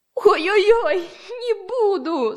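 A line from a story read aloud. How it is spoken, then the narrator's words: Groaning bear. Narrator (Russian): застонал медведь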